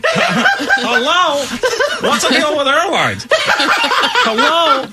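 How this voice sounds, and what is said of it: Parrot imitating Jerry Seinfeld. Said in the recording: “Seinfeld's got a Seinfeld twang to it?”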